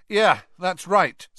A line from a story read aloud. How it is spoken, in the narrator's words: said Harry, raising his voice slightly, so that Karkaroff could hear him